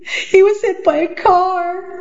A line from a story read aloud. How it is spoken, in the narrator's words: Dana cried